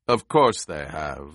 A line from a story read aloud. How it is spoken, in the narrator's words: the Baron rumbled